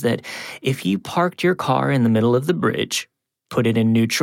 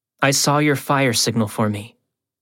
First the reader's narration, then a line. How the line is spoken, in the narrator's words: she said